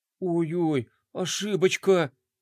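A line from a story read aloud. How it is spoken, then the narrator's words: Gasp then moan. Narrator (Russian): охнул скейтер и машинально простонал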